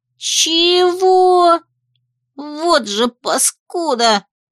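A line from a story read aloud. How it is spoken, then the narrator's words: Indignant squeaky hamster. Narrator (Russian): возмущенно пропищал хомяк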